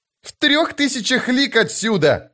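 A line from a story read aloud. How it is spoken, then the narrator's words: Shout. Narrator (Russian): закричал Крокус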